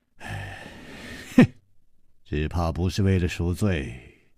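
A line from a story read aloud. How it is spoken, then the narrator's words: Sighing. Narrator (Chinese): 楚留香叹了一口气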